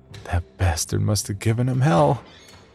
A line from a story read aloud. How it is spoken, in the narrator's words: silently chuckled to himself